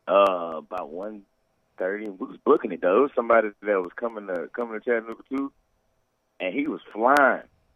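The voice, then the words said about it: Hoarse, nearly lost voice. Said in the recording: “barely has a voice ... My voice is gone.”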